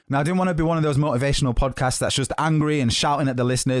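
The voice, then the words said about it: Hard-hitting accented voice. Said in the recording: “My accent, my voice is quite hard hitting”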